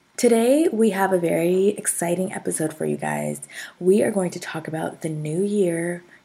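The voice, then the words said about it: Sick-sounding voice. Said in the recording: “Excuse my voice, I'm a little under the weather, getting over a cold”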